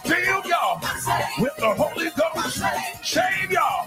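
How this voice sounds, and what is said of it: Shouting. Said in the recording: “That's why I'm shouting.”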